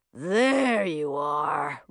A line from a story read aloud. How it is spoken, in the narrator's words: rumbled a voice